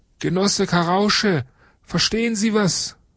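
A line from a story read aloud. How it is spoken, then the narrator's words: Calling. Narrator (German): Weidauer ruft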